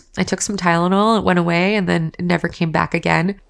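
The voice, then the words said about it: Congested, stuffy voice. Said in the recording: “I'm a little bit congested, which you guys can definitely hear in my voice”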